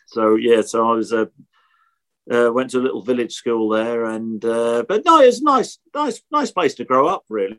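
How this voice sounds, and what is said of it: Norfolk English accent. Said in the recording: “You could probably tell from my accent, Norfolk accent.”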